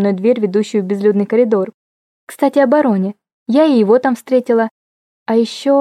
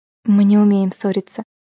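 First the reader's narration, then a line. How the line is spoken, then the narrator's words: Laughing whisper. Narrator (Russian): шепнула я со смешком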